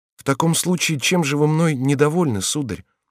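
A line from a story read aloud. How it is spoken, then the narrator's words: Sad. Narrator (Russian): печально проговорил Мартин Гер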